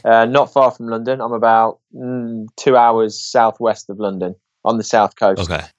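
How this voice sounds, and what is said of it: English accent. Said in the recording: “So you have an English accent.”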